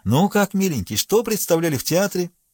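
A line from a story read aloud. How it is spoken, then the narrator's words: Saccharine coaxing tone. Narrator (Russian): Нотариус, почитая своей обязанностью приласкать детей, спросил мальчика слащавым тоном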